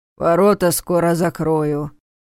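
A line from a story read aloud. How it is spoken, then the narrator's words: Grumbling mutter. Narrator (Russian): пробурчал он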